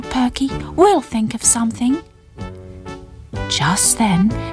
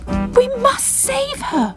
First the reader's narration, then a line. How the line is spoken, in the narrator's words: cried Bubble